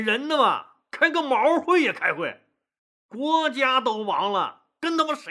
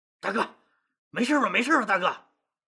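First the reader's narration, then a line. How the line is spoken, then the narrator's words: Breathless, panting question. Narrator (Chinese): 刘邦气喘吁吁地问萧何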